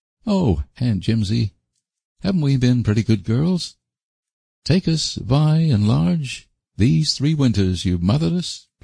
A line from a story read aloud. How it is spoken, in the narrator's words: pleaded Phil